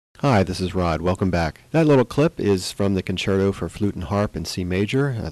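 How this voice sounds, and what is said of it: Voice out of sorts, sick-sounding. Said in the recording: “my voice is a little out of sorts. I've been down with a cold for several days”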